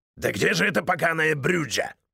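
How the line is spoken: Growling. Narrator (Russian): Прорычал Крис

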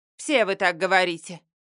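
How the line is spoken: Curt and rude. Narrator (Russian): Грубо отрезает она

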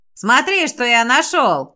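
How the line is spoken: Shout. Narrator (Russian): крикнул он Белочке

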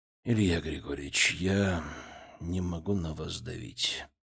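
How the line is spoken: Gentle. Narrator (Russian): мягко произнес он

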